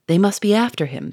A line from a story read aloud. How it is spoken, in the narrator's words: said Charolais